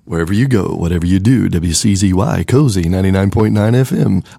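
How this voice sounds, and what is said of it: Radio DJ announcer voice. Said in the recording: “I get in my DJ voice.”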